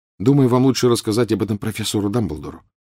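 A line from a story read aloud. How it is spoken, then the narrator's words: Plain. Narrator (Russian): сказал Гарри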